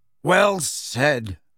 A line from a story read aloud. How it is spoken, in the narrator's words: barked Ernie Macmillan